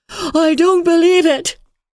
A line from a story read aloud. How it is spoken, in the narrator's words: she cried, in a high, unnatural voice